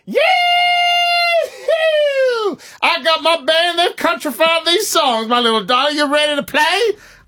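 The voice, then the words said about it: Folksy country con-man voice. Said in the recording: “a snake salesman passing through Oklahoma ... you sound like a con man who's going to be gone in the morning”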